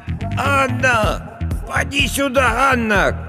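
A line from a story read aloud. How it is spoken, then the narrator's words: Shouting, old woman. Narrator (Russian): кричала старая Агафья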